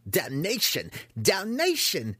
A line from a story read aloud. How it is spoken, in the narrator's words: came the squeal from inside the tower